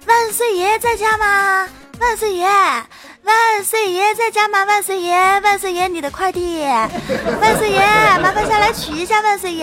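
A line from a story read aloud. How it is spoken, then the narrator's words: Loud shout from downstairs. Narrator (Chinese): 送快递的小哥在我家楼下大喊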